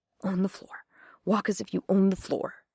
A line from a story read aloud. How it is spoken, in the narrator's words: Jane heard her mutter